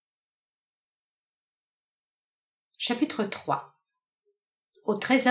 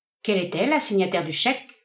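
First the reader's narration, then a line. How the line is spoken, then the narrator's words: Plain question. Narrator (French): demanda John Jarvis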